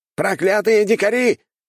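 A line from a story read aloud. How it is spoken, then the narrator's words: Shouting. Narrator (Russian): кричал культиватор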